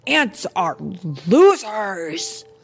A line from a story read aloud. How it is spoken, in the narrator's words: shouted Hopper